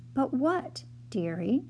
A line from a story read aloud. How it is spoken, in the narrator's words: said Miss Prickles, her voice remained calm as always